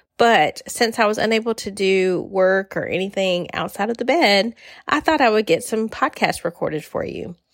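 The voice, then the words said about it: Voice affected by illness. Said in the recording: “I'm coming to you today a little under the weather, so just excuse my voice”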